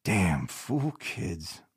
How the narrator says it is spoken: Lee muttered

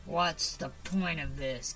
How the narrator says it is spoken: growled

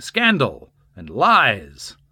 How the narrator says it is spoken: he repeatedly interrupted the judge, shouting

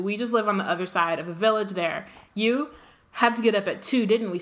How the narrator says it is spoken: said

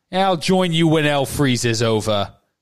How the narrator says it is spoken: said Neville

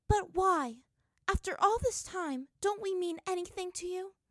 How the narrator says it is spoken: his voice was hurt

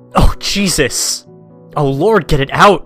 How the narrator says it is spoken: the girl just starts screaming

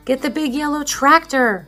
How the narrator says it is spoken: the farmer shouted

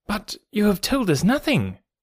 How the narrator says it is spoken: cried the doctor

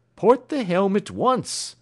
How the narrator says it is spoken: cried the captain

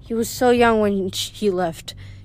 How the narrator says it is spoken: she said wistfully

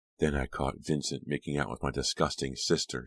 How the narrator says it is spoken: she groaned bitterly

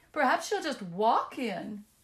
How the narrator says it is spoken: sobbed Blue Eyes

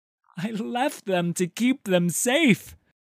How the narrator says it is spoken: the man cried

